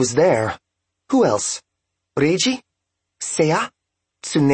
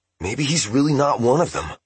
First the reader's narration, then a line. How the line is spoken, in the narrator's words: Sachio whispered